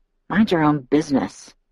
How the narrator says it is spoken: I muttered under my breath, much too low for him to hear

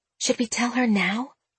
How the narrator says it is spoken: Celeste whispered to Jenna

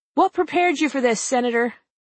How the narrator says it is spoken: Cynthia McFadden, the ABC News anchor, yells from a distance

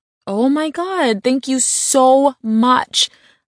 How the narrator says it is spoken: I exclaimed

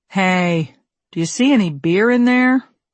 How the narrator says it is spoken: A male voice drawled behind me

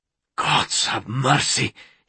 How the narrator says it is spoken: he hissed

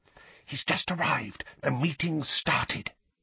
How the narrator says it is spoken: whispered urgently

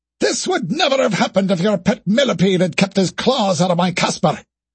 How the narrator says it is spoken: shouted

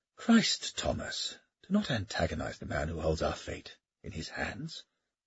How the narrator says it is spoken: Kildare sighed

